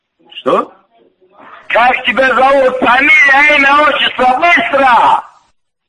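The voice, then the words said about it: Shouting aggressively. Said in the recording (Russian): “не ори ... Чё ты орёшь?”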